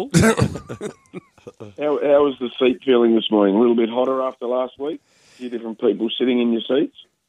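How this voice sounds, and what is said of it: Slightly rough, dusty voice. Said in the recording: “My voice is a bit dusty ... it's not alcohol-induced”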